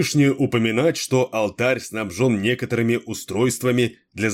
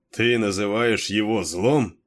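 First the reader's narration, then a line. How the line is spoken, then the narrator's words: Mocking question. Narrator (Russian): насмешливо переспросил Кейн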